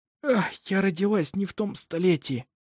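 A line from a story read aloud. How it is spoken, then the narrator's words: Hoarse woman. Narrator (Russian): Сиплым голосом сказала она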